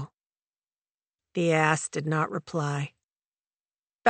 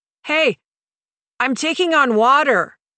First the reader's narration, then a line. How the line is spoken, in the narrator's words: he yelled